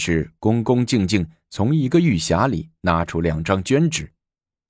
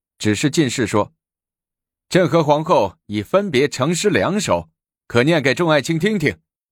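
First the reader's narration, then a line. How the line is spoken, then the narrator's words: Laughing. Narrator (Chinese): 高宗笑着说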